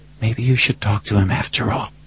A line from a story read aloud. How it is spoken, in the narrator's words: she whispered